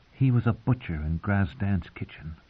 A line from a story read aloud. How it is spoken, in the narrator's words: the girl whispered in her ear